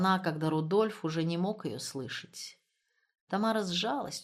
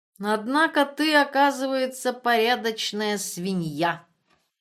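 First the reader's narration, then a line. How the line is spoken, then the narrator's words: Snide remark. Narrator (Russian): ехидно заметил Раннер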